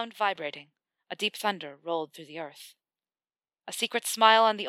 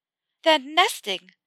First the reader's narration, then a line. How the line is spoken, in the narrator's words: Hermione exclaimed